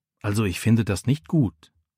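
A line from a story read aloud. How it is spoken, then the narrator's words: Said quietly. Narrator (German): sagt Micha leise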